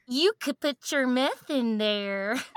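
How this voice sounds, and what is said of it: Imitating Adam Sandler. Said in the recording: “That's Adam Sandler in ... Hot Chick ... It's not a good impression”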